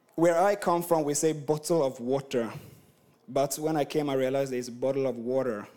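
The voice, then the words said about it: Swedish-accented English. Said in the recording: “I'm from Sweden and I've been across the world. My accent is just messed up.”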